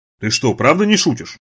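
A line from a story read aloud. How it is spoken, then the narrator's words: Plain. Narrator (Russian): спросил Джонатан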